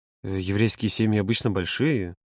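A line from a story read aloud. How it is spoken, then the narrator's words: Hesitant, cut off. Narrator (Russian): неуверенно начал Володя, но Юра его перебил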